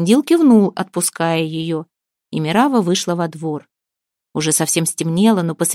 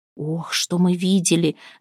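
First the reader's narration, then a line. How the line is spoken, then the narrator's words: Whisper. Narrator (Russian): зашептала Вербина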